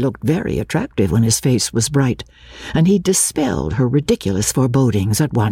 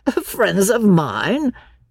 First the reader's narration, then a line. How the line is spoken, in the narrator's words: he laughed